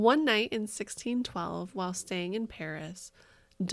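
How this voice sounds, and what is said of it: Usual voice. Nothing is said of it.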